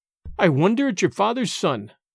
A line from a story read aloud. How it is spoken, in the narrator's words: cried Alan sternly